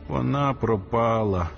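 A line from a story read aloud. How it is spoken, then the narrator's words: Moaning. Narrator (Ukrainian): застогнав він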